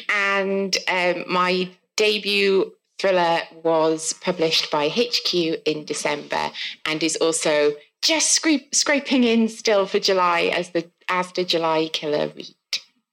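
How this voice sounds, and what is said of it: South Welsh accent. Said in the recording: “if you can't tell from my accent, I'm from South Wales”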